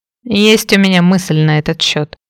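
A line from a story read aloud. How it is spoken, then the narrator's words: Hmph after a pause. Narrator (Russian): хмыкнул Фрэнк, немного помолчав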